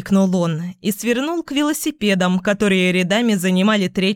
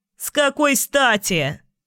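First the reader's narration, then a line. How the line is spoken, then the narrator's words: Barking. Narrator (Russian): рявкнул он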